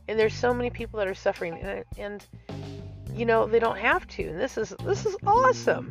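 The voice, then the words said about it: Bubbly, happy, upbeat voice. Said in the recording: “I know I sound like a little happy kitten, because I am a little happy kitten. I'm happy.”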